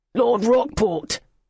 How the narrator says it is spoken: the man barked, and his baritone voice thundered

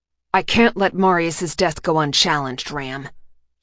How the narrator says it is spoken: he said, his tone permitting no further argument

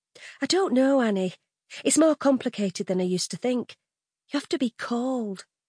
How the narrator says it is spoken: explains gently

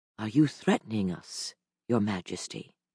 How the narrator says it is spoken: asked quietly

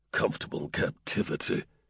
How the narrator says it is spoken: snorted

